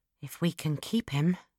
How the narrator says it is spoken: I replied quietly

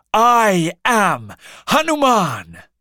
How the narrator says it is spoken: he shouted

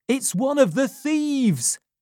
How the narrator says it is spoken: shouted loudly

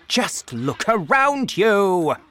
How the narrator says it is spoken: shouted Mr

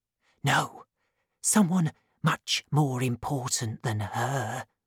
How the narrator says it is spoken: replied the man in a whisper, looking scared

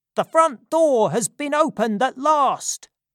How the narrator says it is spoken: cried another man

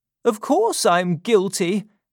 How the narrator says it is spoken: cried Parsons

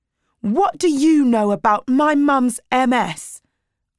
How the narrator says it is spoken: shouted

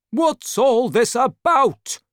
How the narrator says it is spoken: asked angrily

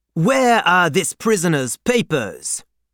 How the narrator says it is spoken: At the barrier in Paris, a thick-necked patriot loudly demanded

